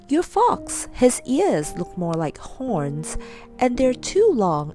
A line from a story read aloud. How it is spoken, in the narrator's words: laughed again